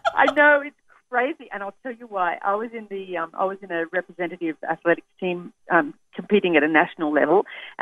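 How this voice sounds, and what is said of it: Australian English accent. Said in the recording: “That's my Australian accent.”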